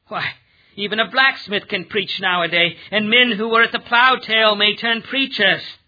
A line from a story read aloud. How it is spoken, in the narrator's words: worldly wise men scorn the science of truth and sneeringly say